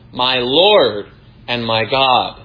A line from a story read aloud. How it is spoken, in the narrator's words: he exclaims